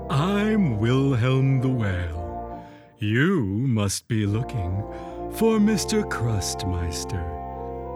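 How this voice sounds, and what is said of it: Slow, deep character voice. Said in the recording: “said a slow, deep voice”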